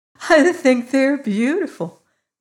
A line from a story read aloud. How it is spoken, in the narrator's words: laughed, sinking to a chair